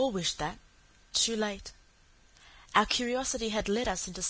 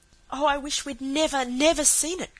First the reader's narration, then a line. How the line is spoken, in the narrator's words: cried Cecily